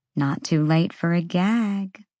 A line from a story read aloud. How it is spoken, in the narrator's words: Bryce murmured